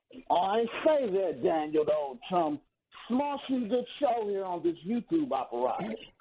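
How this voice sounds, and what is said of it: Put-on English accent. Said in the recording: “was that an English accent? ... Oh, yeah.”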